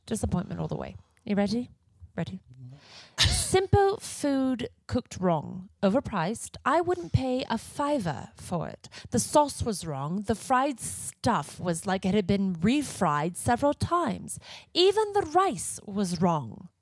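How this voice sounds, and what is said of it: Put-on British accent. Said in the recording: “There's a reason I have Siri on my phone with a British accent ... She's not going to break character.”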